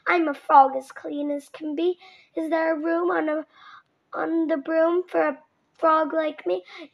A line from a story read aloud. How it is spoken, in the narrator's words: He said with a croak